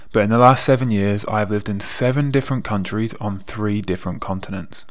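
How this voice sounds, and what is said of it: English accent. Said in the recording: “If you haven't already guessed from my accent, I am from England.”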